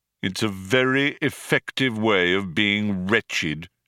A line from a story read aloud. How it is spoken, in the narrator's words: said Marvin